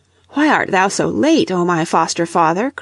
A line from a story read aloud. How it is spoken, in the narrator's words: cried Leif